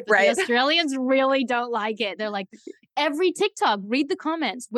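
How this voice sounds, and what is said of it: Mixed Australian-American accent. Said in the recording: “I was wondering where the accent comes from... they're mad that I don't have an Australian accent, and then they're mad that I don't have a full American... Oh, it's exotic”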